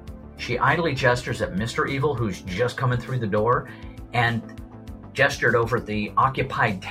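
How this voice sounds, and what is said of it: Usual voice. Nothing is said of it.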